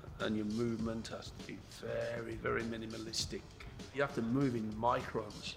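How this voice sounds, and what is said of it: British accent. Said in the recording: “A man with a British accent, like this man with this British accent.”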